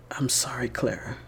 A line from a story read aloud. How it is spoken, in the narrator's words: Richter said softly